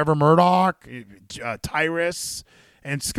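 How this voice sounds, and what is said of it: Usual voice. Nothing is said of it.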